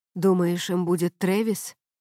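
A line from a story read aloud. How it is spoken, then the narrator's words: Quiet, serious. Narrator (Russian): сказал Трентон тихим и серьезным голосом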